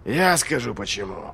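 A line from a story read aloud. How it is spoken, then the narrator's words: Snorting. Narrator (Russian): фыркнул Доу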